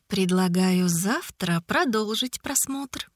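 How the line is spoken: Purring. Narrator (Russian): промурлыкала Ида

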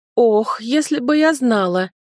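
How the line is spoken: Moaning. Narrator (Russian): застонала я

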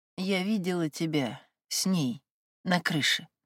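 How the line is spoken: Barely audible. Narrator (Russian): произнесла она еле слышно

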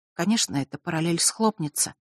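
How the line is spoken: Whispered. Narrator (Russian): прошептала она

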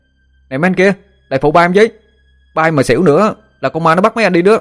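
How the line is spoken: Shouted. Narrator (Vietnamese): Nó hét lên

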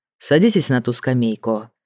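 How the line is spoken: Calm. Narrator (Russian): сказал Грей спокойно

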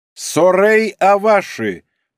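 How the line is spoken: Loud. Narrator (Russian): произнесла Хирано громко

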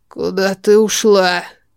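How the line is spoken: Hoarse, unused voice. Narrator (Russian): Его голос хриплый, будто оборотень давно ничего не говорил

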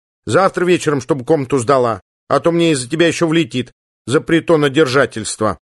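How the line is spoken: Stern, dorm warden. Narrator (Russian): строго сказала комендантша общежития

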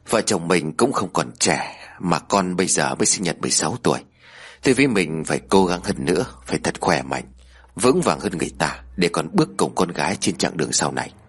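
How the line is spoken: Gentle smiling. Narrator (Vietnamese): Ông Điền khẽ mỉm cười

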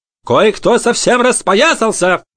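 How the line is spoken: Loud. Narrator (Russian): громко произнесла Греттель

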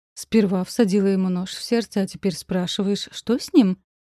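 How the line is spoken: Sarcastic question. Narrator (Russian): Поинтересовалась язвительно

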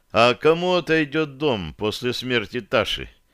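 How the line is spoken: Tired inquiry. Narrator (Russian): поинтересовался я, устало

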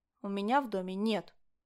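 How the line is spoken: Answered through gritted teeth. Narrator (Russian): сквозь зубы ответила я

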